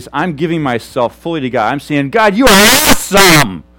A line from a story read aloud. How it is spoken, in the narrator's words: I'm afraid to yell louder because I'm mic'd